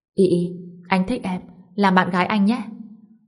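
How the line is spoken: Soft smiling voice. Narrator (Vietnamese): khẽ cười tặng cho Liễu Y Y, nói

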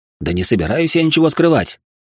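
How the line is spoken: Snapping. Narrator (Russian): огрызнулся

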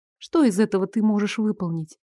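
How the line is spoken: Quiet question. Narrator (Russian): Тихо спросила

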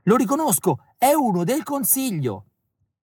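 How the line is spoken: Shouting at full volume. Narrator (Italian): Urlo squarciagola

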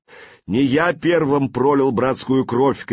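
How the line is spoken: Shout. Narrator (Russian): крикнул он

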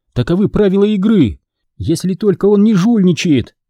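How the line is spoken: Loud addition. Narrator (Russian): громко добавила она

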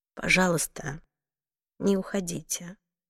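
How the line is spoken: Quiet. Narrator (Russian): тихо сказала миссис Трейнер

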